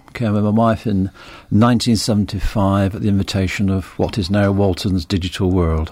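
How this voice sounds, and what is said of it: Northern English accent. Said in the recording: “People will soon detect from your accent that you're not born and bred in Kirkmichael ... Originally from the north of England, from 20 miles north of Manchester, the Rossendale Valley.”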